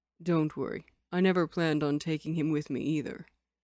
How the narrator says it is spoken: Lin Qingyu said calmly

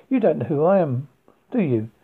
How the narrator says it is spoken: She laughed in amusement

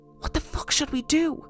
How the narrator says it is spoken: I whispered

